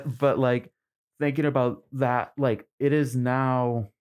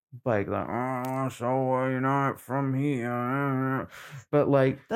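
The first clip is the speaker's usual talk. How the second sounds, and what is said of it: Put-on crotchety Maine accent. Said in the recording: “that's a great Maine accent”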